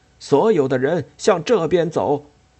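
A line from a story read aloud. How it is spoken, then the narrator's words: Shouting. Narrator (Chinese): 他高叫着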